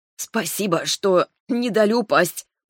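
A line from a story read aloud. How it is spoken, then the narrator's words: Hoarse rasp. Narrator (Russian): прохрипела я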